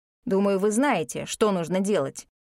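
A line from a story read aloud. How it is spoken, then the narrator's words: Stern. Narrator (Russian): строго сказал Игнис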